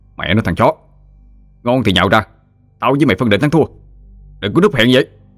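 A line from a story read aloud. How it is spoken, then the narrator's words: Irritated shout. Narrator (Vietnamese): Anh bực dọc quát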